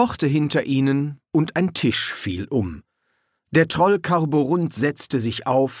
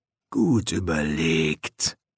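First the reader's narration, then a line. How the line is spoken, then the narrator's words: Murmur. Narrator (German): murmelte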